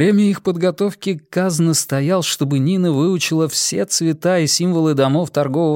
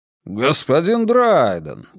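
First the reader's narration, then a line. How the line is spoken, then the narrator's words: Exaggerated surprised exclamation. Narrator (Russian): воскликнул Колм с преувеличенным удивлением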